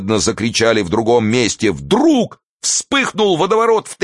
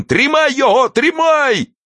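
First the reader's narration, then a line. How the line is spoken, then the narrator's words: Cracked, angry, whiny male shout. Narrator (Russian): закричал мужской натреснутый, злобный и плаксивый голос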